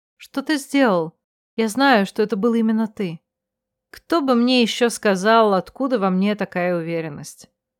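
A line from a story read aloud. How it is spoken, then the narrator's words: Weary, vague telling. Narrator (Russian): Демис вздохнул, не пытаясь скрыть свою усталость или просто не имея на это сил, неопределенно поведал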